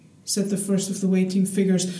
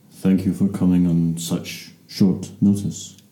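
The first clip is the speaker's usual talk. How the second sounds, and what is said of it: Low rumbling German-accented voice. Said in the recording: “The low rumble said with an unmistakable Germanic accent.”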